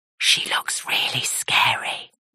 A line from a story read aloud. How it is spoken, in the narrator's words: he whispers